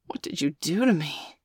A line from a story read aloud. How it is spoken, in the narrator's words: Bailey gasped